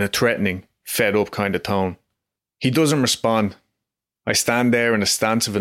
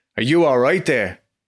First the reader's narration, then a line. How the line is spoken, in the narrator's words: I shout at the man